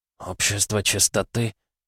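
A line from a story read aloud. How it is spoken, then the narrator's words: Soundless mouthed whisper. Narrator (Russian): Одними губами прошептал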